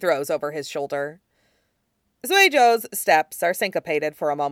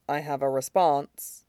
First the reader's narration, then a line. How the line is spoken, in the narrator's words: Sui Jo murmurs